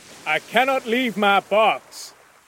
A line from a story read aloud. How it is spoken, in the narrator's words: Cornelius shouted again